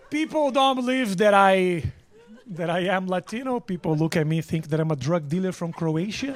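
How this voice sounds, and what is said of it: Eastern European-sounding foreign accent. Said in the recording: “my accent says I'm Dracula ... She heard my accent on the phone”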